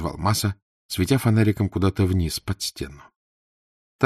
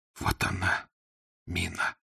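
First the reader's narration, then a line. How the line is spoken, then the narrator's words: Barely audible, hoarse with excitement. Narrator (Russian): едва слышно севшим от волнения голосом сказал Фондорин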